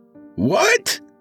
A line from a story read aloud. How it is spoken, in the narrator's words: Broderick screeched in surprise